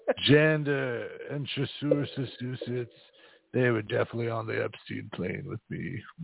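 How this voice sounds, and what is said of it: Bill Clinton impression accent. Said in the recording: “Wait, I'm losing the accent. ... I'm Bill Clinton.”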